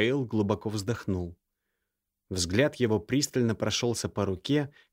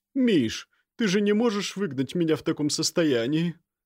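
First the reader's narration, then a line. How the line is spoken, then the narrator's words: Moaning woman. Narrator (Russian): простонала она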